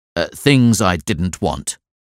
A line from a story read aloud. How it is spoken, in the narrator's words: he said crossly